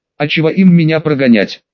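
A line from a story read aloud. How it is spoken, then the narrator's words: Boy laughing loudly. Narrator (Russian): Расхохотался мальчик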